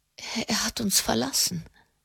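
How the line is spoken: Stammering. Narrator (German): stammelte sie

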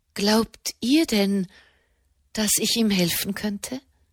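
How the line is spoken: Quiet question. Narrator (German): fragte sie leise

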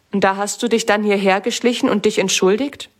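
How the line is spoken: Plain question. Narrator (German): fragt Mama

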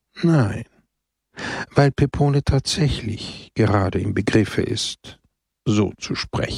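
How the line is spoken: Sighing. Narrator (German): antwortete Christus seufzend

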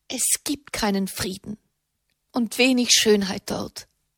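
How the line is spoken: Strained murmur. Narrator (German): murmelte Katharina mit gepresster Stimme

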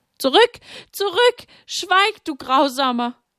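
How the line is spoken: Loud scream. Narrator (German): Sie schrie laut auf

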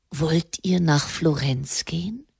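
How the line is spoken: Quiet question. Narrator (German): Der Papst fragte leise

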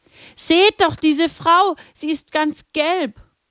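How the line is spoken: Frightened cry. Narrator (German): Erschrocken schrie jemand auf

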